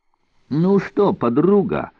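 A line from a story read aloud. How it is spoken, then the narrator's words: Nervous laugh. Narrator (Russian): нервно рассмеялся Олис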